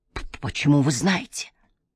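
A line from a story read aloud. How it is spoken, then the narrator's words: Breathless whisper. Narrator (Russian): прошептал он, едва переводя дыхание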